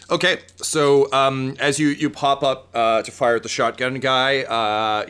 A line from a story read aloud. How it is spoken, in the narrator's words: he yells